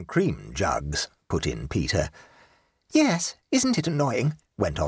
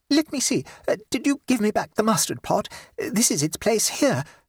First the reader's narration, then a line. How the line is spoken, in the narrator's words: piped Mrs